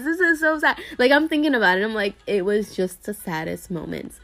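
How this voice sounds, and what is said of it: Tearful, emotional voice. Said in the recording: “I'm really tearing up, guys... I'm really tearing up. You can hear it in my voice.”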